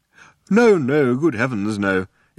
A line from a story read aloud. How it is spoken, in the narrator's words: exclaimed the old man